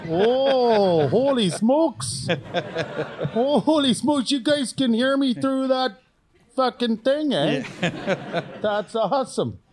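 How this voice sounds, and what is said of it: Exaggerated Canadian accent. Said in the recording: “It doesn't pick up anything in a Canadian accent.”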